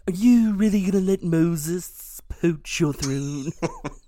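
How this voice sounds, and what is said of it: Imitates another person's voice. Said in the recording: “my Vincent Price impersonation”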